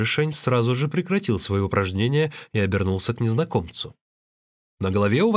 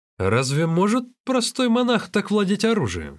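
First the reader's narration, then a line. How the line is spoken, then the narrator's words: Exclaimed. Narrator (Russian): воскликнул незнакомец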